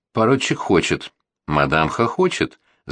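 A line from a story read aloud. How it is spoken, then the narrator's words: Singing while laughing. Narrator (Russian): запел, засмеявшись, третий голос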